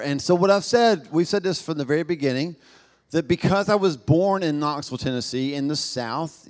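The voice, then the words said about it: Southern US accent. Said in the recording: “born in the South. Knoxville, Tennessee ... I don't think I have an accent, but I've been to other parts of the country and world and found out that apparently I do, y'all ... I talk a certain way”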